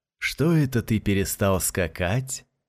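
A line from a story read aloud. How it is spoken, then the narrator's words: Sweet-voiced question. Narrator (Russian): сладким голосом спросил продавец шаров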